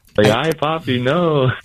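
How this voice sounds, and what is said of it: Impression of Ivan Herrera. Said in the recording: “his impression of Ivan Herrera”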